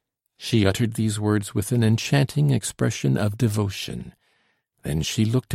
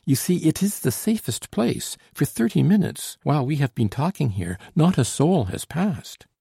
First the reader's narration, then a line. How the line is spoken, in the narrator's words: she exclaimed